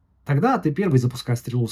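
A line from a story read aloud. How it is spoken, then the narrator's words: Plain. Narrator (Russian): сказал сын Малика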